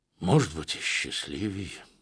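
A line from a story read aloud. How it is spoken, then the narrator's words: Involuntary sigh. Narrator (Russian): не сдержался, вздохнул генерал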